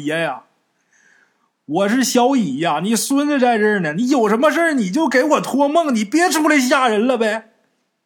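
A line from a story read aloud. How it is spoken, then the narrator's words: Wailing, crying out. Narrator (Chinese): 罗小乙崩溃了，一边哭一边喊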